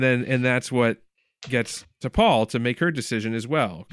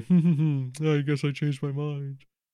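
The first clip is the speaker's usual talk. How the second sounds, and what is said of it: Impression of Phlox. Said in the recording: “good Phlox impression.”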